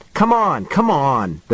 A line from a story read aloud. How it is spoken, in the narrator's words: the man said impatiently